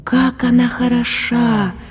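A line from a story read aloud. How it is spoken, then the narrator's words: Rapturous breathless young man. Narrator (Russian): восторженно выдохнул Янус юноша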